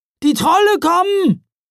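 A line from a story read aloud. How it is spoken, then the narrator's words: Shout. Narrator (German): rief jemand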